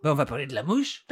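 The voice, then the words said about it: Put-on Belgian French accent. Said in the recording (French): “Avec un accent belge.”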